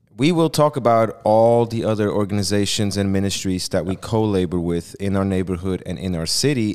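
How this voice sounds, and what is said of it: Swiss accent. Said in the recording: “my Swiss accent apparently has me say it wrong”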